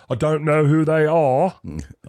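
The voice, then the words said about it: Imitates another person's voice. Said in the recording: “I'm not sure if that's his accent. ... It's pretty close. It's pretty close.”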